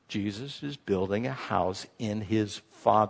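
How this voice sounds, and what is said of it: Usual voice. Nothing is said of it.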